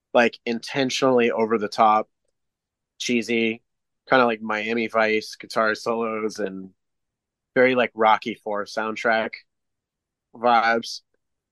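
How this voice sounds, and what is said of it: Slightly hoarse, strained voice. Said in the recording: “I'm losing my voice a little bit”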